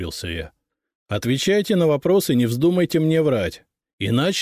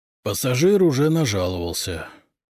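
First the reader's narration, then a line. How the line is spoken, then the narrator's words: Strained, forced out. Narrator (Russian): выдавил один из них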